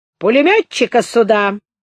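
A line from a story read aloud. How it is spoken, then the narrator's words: Shouted. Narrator (Russian): крикнул он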